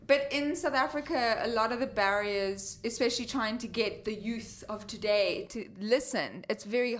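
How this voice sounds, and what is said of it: South African accent. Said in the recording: “I'm from Cape Town. You can't hear my accent? ... I thought it was Australian. ... it's like a drunk Australian mixed with like a British”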